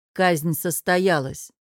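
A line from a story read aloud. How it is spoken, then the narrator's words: Plain. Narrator (Russian): сказал Сиргор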